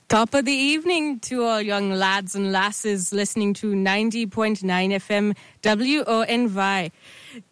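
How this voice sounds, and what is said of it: Weak put-on Scottish accent. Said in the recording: “Dang it, I need to work on my Scottish accent.”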